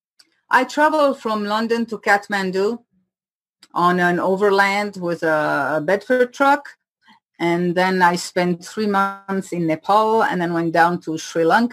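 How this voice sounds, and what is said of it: Swiss French and Indian-tinged English accent. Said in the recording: “I have a funny accent, because I learn English in India. So I have the French from Switzerland ... a half Indian baked accent”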